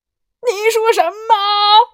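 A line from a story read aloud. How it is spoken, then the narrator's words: Surprised shout. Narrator (Chinese): 阿里惊讶的大喊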